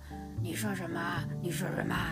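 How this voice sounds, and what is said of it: Hoarse, low-pitched, unclear voice. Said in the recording (Chinese): “喉咙很沙哑 ... hoarse ... very not very clear，然后 very not very high pitch，it's very low pitch，然后不是很 round ... very hoarse ... 说话都说的不是很很 round”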